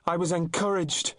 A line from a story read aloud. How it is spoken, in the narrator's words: shouted after him